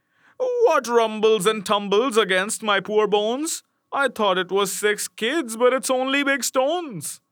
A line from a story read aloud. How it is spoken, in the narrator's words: cried he